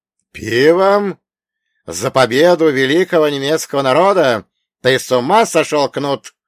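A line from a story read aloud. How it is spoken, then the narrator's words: Roaring. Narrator (Russian): проревел Бунге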